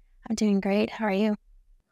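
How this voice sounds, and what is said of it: Soft, quiet ASMR-style voice. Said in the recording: “you're the opposite ... I'm a little louder when I'm not, you know, in character, but I'm putting on a little bit of the ASMR voice”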